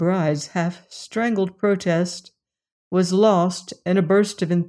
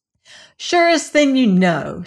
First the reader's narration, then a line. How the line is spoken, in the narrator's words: she cried